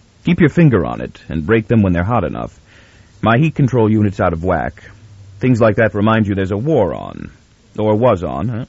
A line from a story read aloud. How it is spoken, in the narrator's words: His quick words had a jovial content, but were said in anything but a jovial tone